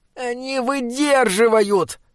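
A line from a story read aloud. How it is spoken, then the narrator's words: Groaning. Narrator (Russian): простонал Бинабик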